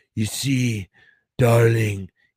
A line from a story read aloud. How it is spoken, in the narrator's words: he rasped